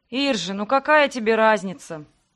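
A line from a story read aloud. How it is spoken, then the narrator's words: Sigh. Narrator (Russian): Вздохнул Себастьян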